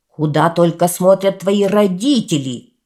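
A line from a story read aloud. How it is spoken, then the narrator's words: Shouting. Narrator (Russian): закричал он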